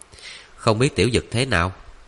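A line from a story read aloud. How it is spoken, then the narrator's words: Worried muttering. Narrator (Vietnamese): Ali lo lắng lẩm bẩm nói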